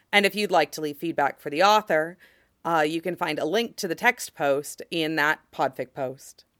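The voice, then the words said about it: Noticeably strained, altered voice. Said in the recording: “Oh my gosh, my voice ... What is happening to my voice? ... my voice is just fucked”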